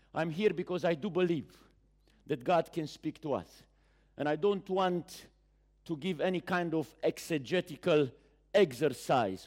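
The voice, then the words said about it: Speaks English with a foreign accent. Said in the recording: “I'm not here to apologize neither for my accent nor for my pronunciation”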